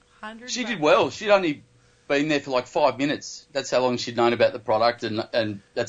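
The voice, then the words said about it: Australian accent. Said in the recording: “detected an accent... Are you from Australia?... I am from Australia.”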